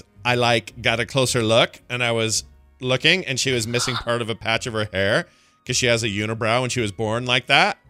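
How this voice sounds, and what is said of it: Put-on mom voice. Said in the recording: “This is her mom. That's my mom voice.”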